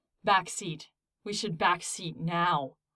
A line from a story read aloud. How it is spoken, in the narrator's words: Derek growled, his voice sounding inhuman to his own ears